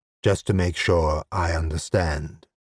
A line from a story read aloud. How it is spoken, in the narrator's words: purred the voice in his head